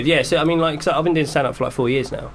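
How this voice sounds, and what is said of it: Accent that drops final L sounds. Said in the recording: “I have to really enunciate that because of my accent. I naturally say howl. ... you can't hear the L at the end”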